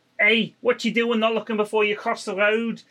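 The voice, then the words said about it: Put-on Scouse accent. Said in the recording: “I can't do a Scouse accent, but yeah... That was pretty good, though. It's better than mine.”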